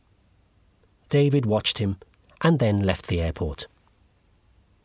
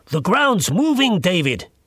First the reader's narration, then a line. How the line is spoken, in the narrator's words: shouted